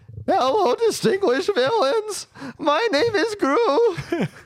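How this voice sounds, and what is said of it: Cartoon villain Gru character voice. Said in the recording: “my childhood Gru impersonation ... What are these voices?”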